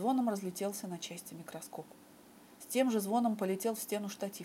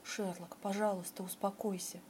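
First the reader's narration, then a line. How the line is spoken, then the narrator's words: Quiet repeated plea. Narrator (Russian): тихо повторял Джон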